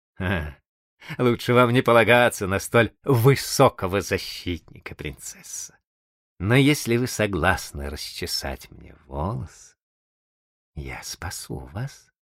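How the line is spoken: Laughing. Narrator (Russian): Молодой человек сказал, смеясь

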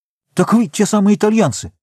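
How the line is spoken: Exclaimed. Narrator (Russian): воскликнул он

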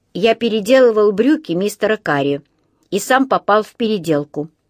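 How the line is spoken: Plain. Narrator (Russian): ответил Паддингтон

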